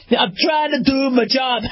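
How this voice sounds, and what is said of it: Attempted New York accent. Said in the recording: “maybe they'll have like a New York accent... I can't do a New York accent.”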